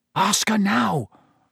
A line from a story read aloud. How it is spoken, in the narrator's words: Ron hissed at Harry